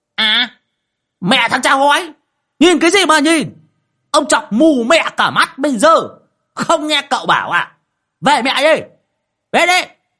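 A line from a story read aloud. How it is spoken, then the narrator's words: Old man hissing. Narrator (Vietnamese): Lão Đồng rít lên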